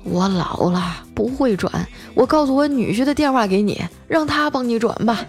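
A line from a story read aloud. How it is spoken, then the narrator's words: Excited, trembling voice. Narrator (Chinese): 知道中奖了，她贼激动啊，声音颤抖着说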